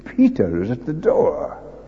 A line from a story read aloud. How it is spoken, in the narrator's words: she was so overjoyed she exclaimed